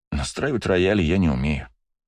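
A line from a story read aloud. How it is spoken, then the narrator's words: Sigh. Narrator (Russian): вздохнул Бельфигор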